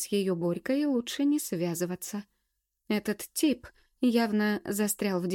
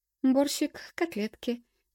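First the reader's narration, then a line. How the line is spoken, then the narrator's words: Excited, smiling. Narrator (Russian): взволнованно улыбнулась я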